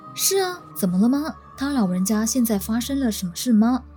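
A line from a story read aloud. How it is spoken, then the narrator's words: Plain. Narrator (Chinese): 我回应道说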